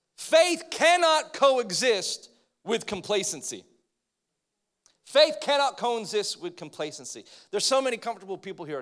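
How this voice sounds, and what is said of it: American accent. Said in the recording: “American accent”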